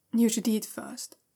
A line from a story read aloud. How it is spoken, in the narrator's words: he says quietly